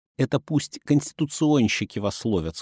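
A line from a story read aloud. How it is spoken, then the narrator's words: Plain. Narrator (Russian): сказал он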